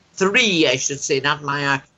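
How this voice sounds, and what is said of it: Irish accent. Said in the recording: “when I say it in my Irish accent, it sounds like a tree”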